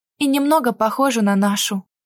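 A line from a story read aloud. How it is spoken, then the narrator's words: Sad smirk. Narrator (Russian): усмехнулась грустно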